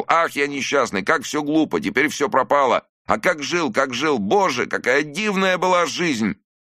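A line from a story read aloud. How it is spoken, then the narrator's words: Sobbing shout. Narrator (Russian): Захлебываясь слезами, он кричал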